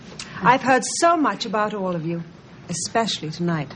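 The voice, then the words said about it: Sexy, sultry female voice. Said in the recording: “she does have a sexy voice”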